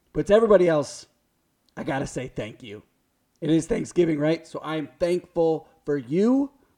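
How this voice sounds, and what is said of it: Raspy, strained voice. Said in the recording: “Your boy struggled through that open... My voice is struggling... my raspy voice”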